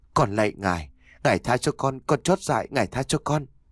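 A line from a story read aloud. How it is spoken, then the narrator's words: Trembling, near tears. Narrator (Vietnamese): lời nói run rẩy như là muốn khóc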